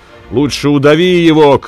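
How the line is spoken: Crowd shouting. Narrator (Russian): кричал народ

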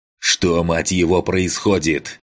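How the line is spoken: Roaring over comms. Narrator (Russian): Проревел в канале Макс

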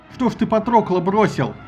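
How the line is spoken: Sudden shout. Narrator (Russian): закричал вдруг на Гектора Главк

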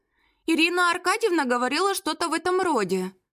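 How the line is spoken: Uncertain. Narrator (Russian): неуверенно произнесла Мирослава

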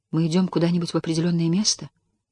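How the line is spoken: Timid question. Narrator (Russian): Тесс робко спросила

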